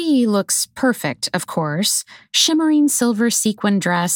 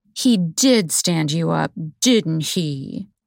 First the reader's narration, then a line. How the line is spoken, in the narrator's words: Jules says in a condescendingly sweet voice, as if she's talking to an animal